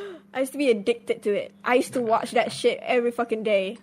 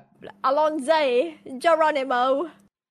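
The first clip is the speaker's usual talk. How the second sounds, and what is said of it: Bad put-on British accent. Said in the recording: “British accent. My really bad British accent.”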